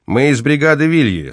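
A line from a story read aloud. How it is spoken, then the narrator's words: Loud, rough voice. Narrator (Russian): сказал зычно и грубо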